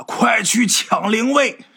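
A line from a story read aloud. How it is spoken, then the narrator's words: Coughing, then shouting. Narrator (Chinese): 咳嗽几声就喊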